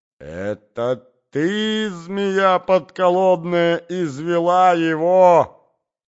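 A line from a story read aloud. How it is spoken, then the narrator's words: Desperate scream. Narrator (Russian): закричала она в отчаянии Зине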